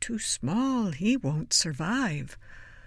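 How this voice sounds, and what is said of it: Whispered line. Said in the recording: “whispering”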